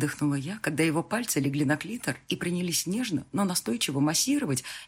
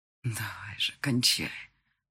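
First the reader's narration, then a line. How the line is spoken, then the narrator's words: Whisper in ear. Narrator (Russian): шепнул на ухо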